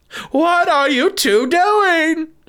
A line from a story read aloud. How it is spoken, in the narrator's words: she cried